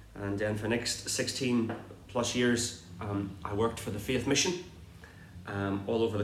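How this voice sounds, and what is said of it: Irish accent. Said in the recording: “As you will tell from my accent, no, it's not your computer, nor your television. It's actually Irish accent”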